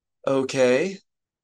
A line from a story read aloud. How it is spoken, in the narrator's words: Leia sighed